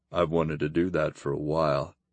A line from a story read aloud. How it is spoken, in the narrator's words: Grimm murmured